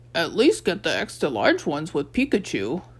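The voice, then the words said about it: Imitation of another character's voice. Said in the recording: “did a pretty good imitation of Walt's voice.”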